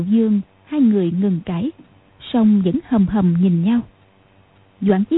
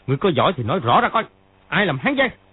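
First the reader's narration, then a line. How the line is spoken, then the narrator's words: Angry shout. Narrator (Vietnamese): Triệu Chí Kính sa sầm mặt, y quát lên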